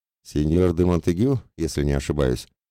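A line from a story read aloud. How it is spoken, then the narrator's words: Muffled, disguised voice. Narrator (Russian): произнес я глухо, всеми силами пытаясь сохранить свое инкогнито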